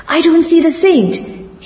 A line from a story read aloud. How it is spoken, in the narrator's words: he shouted